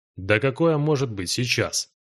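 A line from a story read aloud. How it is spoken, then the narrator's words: Smirking. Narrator (Russian): хмыкнул южанин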